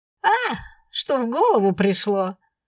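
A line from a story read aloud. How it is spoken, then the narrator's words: Cheerful chuckle. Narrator (Russian): весело усмехнулся Валериус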